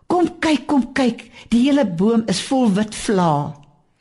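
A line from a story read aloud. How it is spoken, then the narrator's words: Excited exclamation. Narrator (Afrikaans): het hierdie kompartementmaat uitgeroep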